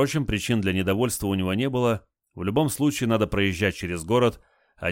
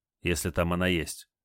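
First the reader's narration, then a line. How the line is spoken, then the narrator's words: Displeased grumble. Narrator (Russian): недовольно буркнул Олег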